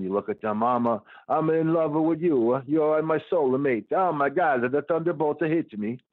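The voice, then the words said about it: Put-on generic Italian accent. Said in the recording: “That's my Italian accent. Maybe it sounds Swedish. ... That's my my generic accent for things.”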